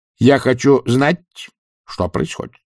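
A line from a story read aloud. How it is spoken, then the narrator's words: Very quiet, even voice. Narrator (Russian): сказал Чудакулли очень тихим и ровным голосом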